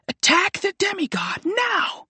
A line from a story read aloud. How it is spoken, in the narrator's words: She screamed